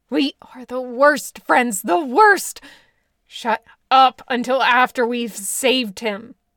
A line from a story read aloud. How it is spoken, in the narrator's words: Bill growled back